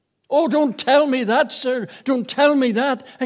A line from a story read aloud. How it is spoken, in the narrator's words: exclaimed the distressed seeker